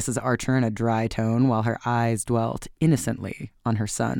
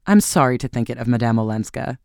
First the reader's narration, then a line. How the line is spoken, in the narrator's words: said Mrs